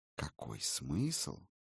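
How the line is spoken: Voice drops to whisper. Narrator (Russian): голос упал до шепота

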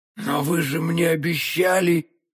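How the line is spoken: Barely audible miserable babble. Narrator (Russian): чуть слышно пролепетал несчастный галантерейщик

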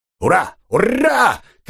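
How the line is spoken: Uncontrolled excited shouting. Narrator (Russian): кричал капитан Гот, не владея уже собой

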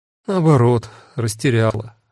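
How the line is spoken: Gloomy admission. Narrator (Russian): мрачно призналась она

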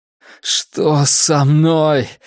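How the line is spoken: Strained words through pain. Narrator (Russian): выдавил я между приступами боли

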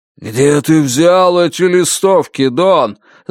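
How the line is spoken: Ominous booming voice. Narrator (Russian): зловеще прогудел Лен Миликин

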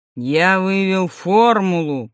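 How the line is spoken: Deep guttural voice. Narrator (Russian): произнес Сидоров утробным голосом

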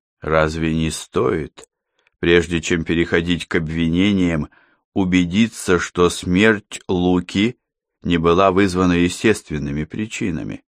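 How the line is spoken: Calm. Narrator (Russian): спокойно заметил Йон

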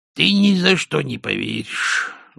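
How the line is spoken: Sighing prisoner. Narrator (Russian): вздохнув, промолвил узник

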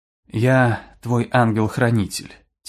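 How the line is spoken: Quiet. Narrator (Russian): тихо сказала она

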